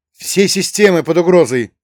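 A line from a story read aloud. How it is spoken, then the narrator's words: Panicked shriek. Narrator (Russian): завопил другой оператор, в голосе которого зазвучала паника, переходящая в визг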